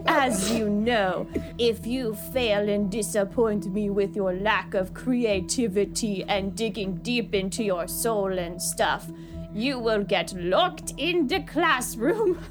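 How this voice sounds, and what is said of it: Character voice with wandering European accent. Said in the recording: “art teacher who loves to smoke and say things to scare you ... I don't know what this voice is ... we're going on a tour through Europe with Carla's accent ... isn't good at voices”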